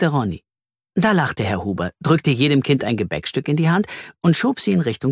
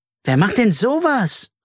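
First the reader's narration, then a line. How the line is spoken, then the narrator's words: Indignant exclamation. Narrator (German): rief Carla empört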